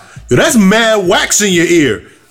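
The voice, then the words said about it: Loud yelling voice. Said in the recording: “She says this shit mad loud... why are you yelling?”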